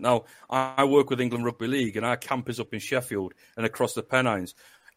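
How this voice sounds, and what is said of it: Strong northern English accent. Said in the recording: “my northern accent... everyone keeps saying I sound so strong northern... the accent's completely different... my accent changes”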